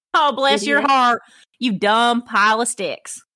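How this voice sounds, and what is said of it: Put-on Southern American accent. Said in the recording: “That was a Southern thing, was it not? ... the Southern accent portion of the evening”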